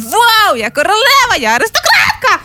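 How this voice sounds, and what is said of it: Shouting excitedly. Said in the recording (Ukrainian): “так не кричи, ти ж так повільно маєш говорити”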